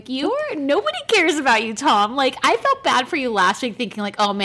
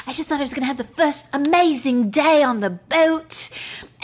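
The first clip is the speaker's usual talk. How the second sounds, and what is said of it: Imitates another person's voice, odd accent. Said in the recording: “Sorry, I don't know what accent this is.”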